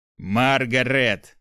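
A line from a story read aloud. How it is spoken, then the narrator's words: Through gritted teeth. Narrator (Russian): Сквозь зубы произнес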